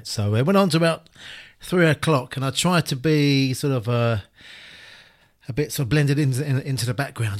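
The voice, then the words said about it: Slightly hoarse voice. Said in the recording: “I'm a bit hoarse.”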